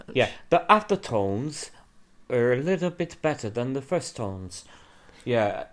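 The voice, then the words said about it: Put-on posh accent, sounds almost French. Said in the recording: “What is that accent ... I was trying to do posh ... You sounded like, I don't know, almost French”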